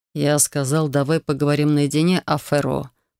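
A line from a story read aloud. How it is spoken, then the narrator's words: Said through gritted teeth. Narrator (Russian): процедил Хантер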